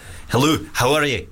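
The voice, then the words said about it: Put-on Scottish accent. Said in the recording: “Scottish ... It's not bad, right? That was okay.”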